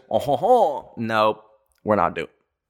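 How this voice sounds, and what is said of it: Put-on French accent. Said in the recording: “we are not doing the French accent. ... hon, hon, hon”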